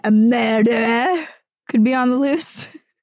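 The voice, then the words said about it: Bad put-on Scottish accent. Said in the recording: “As that Scottish guy would say ... That was the worst Scottish accent I've ever”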